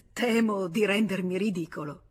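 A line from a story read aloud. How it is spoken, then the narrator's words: Laughing. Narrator (Italian): rise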